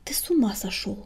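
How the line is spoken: Hissed whisper. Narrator (Russian): прошипел Крутобок, понизив голос до шепота

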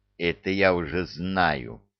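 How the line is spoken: Young man's hiss. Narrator (Russian): прошипел юноша

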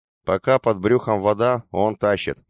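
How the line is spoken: Gloomy. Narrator (Russian): мрачно сказал припас

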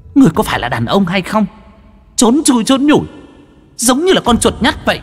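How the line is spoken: Angry roar. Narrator (Vietnamese): Hồng Y tức giận mà gầm lên

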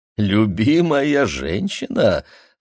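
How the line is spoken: Loud laughing. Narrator (Russian): засмеялась мама еще громче

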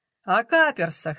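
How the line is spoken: Laughing. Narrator (Russian): смеялась она

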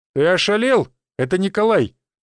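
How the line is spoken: Sharp scolding shout. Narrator (Russian): прикрикнул на него верховный некромант

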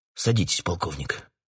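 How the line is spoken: Quiet. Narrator (Russian): тихо сказал он

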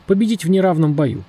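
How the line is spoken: Plain. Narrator (Russian): сказал Кримсон

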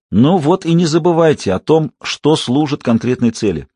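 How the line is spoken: Plain. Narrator (Russian): сказал Таннерболт

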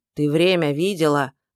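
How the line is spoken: Grumbling. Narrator (Russian): заворчала

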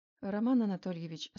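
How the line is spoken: Calm. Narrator (Russian): спокойно ответил Новицкий

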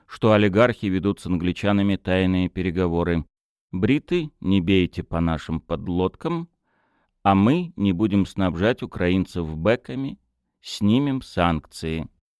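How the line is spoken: Even voice. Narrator (Russian): ровным голосом сказал Утолин

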